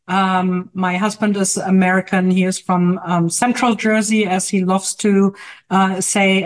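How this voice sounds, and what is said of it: German accent. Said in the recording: “As you may hear from my accent ... I'm actually from Germany”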